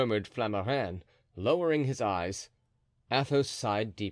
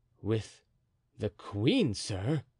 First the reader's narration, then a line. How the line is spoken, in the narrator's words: replied Athos in his calm, vibrating voice